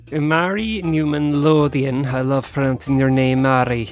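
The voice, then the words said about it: Put-on Welsh-style accent. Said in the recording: “we're saying that in a kind of like Welsh accent.”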